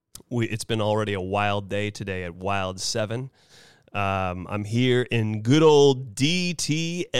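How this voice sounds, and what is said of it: Hoarse, strained voice. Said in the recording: “my voice is just a little shot today, folks. Boy, excuse me.”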